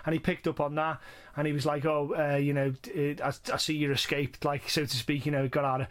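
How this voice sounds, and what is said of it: Northwest English accent. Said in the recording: “I have an accent. ... I'm not from Liverpool, but I'm from the Northwest.”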